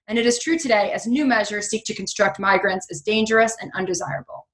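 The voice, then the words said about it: Valley Girl New York accent. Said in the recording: “my terrible Valley Girl New York accent ... That's my New York State upbringing”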